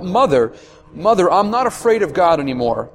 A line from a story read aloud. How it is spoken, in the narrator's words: she cried out